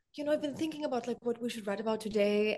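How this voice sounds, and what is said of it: Bad put-on German accent. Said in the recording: “That's a really bad German accent”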